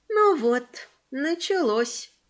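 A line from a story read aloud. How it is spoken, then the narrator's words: Sad voice. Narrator (Russian): печально сказал голос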